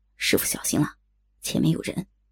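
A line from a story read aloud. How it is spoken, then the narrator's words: Low voice. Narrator (Chinese): 左剑清低声道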